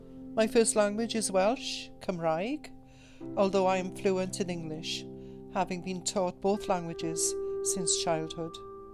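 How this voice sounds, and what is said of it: Welsh accent. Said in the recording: “my accent, I am native to Wales”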